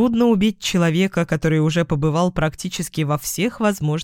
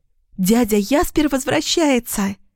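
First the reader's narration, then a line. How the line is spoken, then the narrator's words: Joyful squeal. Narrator (Russian): радостно взвизгнула Лилиана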